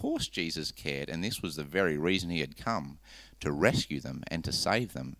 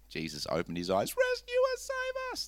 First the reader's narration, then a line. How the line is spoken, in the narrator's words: They shrieked